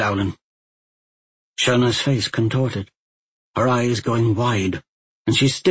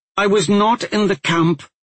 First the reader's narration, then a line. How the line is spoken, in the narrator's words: the young woman blurted